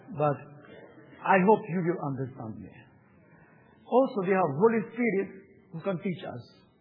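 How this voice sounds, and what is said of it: Non-native accented English. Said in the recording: “Maybe my English is Scottish accent, maybe it's Ukrainian, I don't know.”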